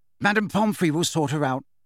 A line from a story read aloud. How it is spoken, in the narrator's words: said Alicia Spinett firmly